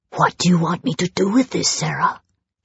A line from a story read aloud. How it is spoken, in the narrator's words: He whispered, puzzled